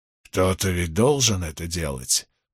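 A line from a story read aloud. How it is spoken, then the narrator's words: Grumbling. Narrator (Russian): проворчал Линч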